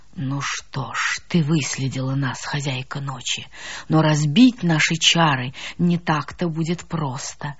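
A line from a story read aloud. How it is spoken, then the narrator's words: Giant's slow, measured whisper. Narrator (Russian): медленно отчеканивая каждое слово, шептал гигант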